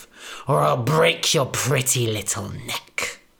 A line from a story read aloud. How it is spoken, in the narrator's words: spat the big bad wolf